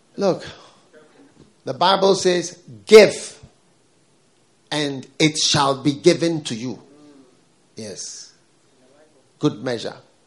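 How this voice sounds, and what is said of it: African-accented English. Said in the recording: “They liked my accent. ... They were looking for an African.”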